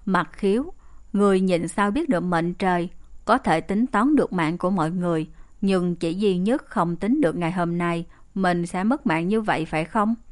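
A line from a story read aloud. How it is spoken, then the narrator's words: Cold voice. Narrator (Vietnamese): Bách Lý Ngạo Thiên lạnh lùng nói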